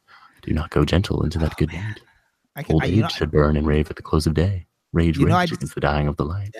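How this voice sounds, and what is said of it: NPR-style radio reading voice. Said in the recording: “in my NPR voice”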